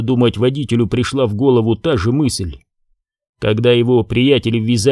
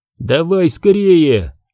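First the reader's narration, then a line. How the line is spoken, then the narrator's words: American man shouting. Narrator (Russian): закричал американец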